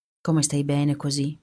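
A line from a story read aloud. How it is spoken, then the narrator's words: Murmured. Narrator (Italian): mormora Catina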